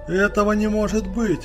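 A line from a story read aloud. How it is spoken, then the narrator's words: Yelling. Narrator (Russian): завопил он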